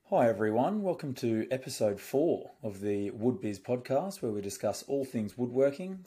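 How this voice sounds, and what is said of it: Hoarse, deeper-sounding voice. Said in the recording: “My voice is a bit hoarse tonight ... it was barely there at all ... sounding a little bit more manlier tonight”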